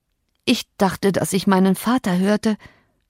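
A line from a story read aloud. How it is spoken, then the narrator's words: Groaning. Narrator (German): stöhnte er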